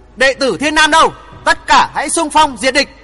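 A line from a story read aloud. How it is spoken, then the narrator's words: Booming shout. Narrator (Vietnamese): Tiếng hét hắn oang oang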